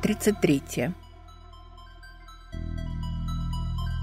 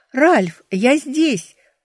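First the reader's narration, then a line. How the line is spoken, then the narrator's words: Full-throated shout. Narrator (Russian): крикнула я во всю глотку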